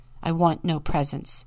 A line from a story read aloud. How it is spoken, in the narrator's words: said harshly